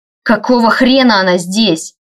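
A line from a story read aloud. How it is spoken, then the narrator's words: Barked. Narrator (Russian): рявкнул Райнер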